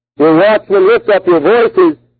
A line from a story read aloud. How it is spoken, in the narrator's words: they shout joyfully together